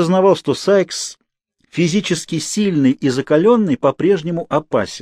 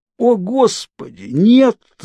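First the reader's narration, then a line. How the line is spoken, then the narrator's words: Groaned in pain. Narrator (Russian): застонал я, пытаясь стряхнуть боль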